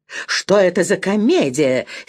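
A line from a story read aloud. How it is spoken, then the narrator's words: Angry woman. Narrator (Russian): сердито сказала дипломатка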